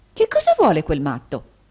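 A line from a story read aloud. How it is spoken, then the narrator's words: Angry exclamation. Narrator (Italian): esclamò l'infermiera guardando irata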